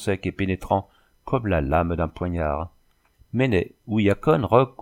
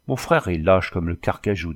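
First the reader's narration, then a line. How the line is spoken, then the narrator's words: Plain. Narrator (French): dit-elle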